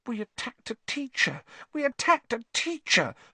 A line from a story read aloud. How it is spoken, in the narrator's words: Hermione whimpered, staring at the lifeless Snape with frightened eyes